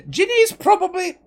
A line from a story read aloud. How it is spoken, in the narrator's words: shouting from four floors below